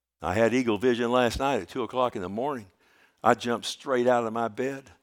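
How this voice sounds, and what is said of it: Dry, strained, allergy-affected voice. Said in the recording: “the reason my voice sounds the way it sounds like now is because, you know, we're in the height of mountain cedar ... my throat was like the Sahara Desert”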